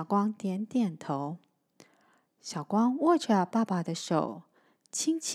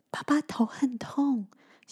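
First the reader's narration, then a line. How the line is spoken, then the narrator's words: Soft voice. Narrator (Chinese): 小蝶轻声说着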